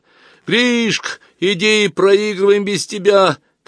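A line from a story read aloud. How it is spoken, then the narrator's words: Kids shouting. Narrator (Russian): кричали ему ребята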